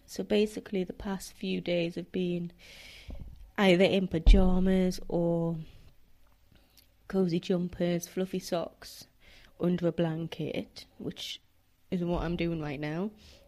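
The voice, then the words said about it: Voice sounds congested from a cold. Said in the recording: “I don't know if you can tell from my voice, but I'm recovering from a cold.”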